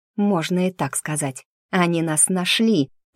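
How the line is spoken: Growling boy. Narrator (Russian): прорычал мальчишка

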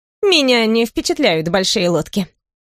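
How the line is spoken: Snorting. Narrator (Russian): фыркнула Беттина

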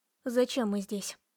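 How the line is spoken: Calm, suppressed trembling. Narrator (Russian): старалась говорить спокойно, с трудом сдерживая дрожь

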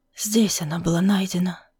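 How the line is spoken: Whisper. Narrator (Russian): прошептал лорд Блэквуд

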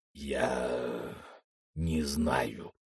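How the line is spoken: Muffled reply, head down. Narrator (Russian): глухо ответил Крок, не поднимая головы

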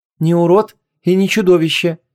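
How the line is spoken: Soft objection. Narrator (Russian): мягко возразил Длик

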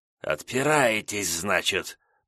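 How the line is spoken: Hissed with snakelike whistle. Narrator (Russian): прошипел дознаватель с присвистом по-змеиному

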